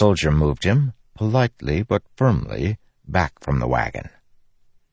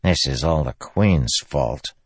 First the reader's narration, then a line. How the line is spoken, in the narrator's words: Beard muttered softly